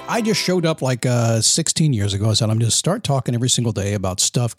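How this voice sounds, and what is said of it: Polished radio announcer voice. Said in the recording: “This guy's got this radio voice.”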